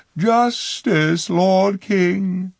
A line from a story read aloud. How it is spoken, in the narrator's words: she cried